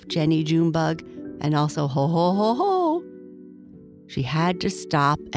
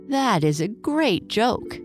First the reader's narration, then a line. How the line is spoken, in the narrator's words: Jenny cried